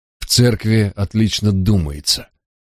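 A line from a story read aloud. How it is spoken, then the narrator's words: Sigh. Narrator (Russian): Джек вздохнул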